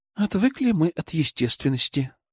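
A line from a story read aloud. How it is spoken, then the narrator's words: Sighed. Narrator (Russian): вздохнула Юля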